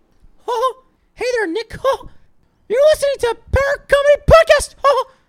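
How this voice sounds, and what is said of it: High-pitched cartoon mouse voice. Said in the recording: “I got to go really high pitch ... it's not like a perfect Mickey Mouse. It's like Mickey Mouse from South Park”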